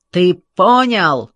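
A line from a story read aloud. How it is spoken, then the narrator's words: Yelling. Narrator (Russian): орал Лин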